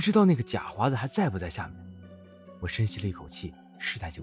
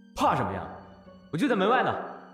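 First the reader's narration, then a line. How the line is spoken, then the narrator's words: Loud, from outside. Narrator (Chinese): 刚哥在外面大声道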